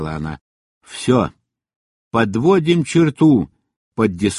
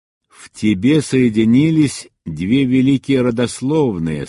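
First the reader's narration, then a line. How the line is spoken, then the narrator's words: Plain. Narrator (Russian): сказала мать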